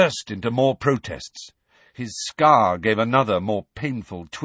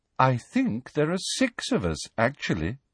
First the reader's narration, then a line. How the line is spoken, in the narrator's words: said Luna calmly